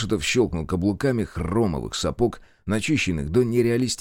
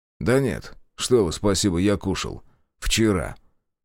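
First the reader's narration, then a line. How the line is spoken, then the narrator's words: Plain. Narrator (Russian): сказал Зотов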